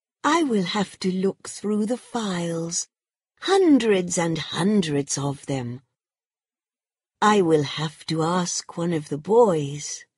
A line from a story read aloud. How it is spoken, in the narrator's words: said sweetly